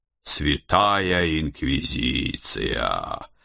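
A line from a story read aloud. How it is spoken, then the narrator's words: Muttered. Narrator (Russian): пробормотал я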